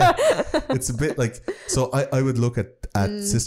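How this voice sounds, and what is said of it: Usual voice. Nothing is said of it.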